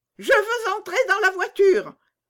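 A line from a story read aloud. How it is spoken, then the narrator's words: Little girl shouting. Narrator (French): cria la petite fille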